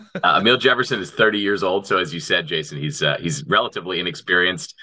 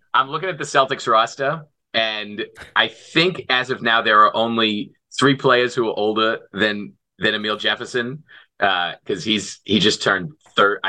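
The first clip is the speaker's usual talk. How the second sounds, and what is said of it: Put-on Boston accent. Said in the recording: “do the entire podcast in a Boston accent ... You were killing it.”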